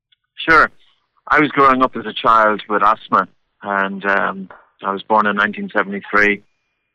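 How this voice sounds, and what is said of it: Irish accent. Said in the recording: “That accent, I believe, is Irish”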